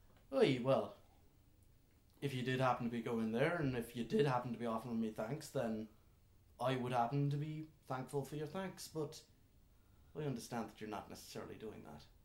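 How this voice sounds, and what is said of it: Mixed Irish and West Country accent. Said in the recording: “his accent's just a mixture of Irish and the West Country”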